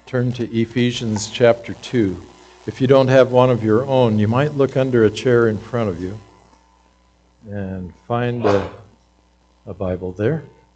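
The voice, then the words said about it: Speaks with a regional accent. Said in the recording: “You can probably tell by my accent, but I was in Saskatchewan for over 3 years”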